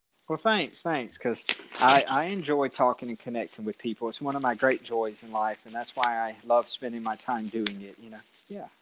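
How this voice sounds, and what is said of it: Classic Southern US accent. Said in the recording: “You have a distinct voice as well. ... I have that classic Southern accent, you know, because I'm from here in Central Alabama”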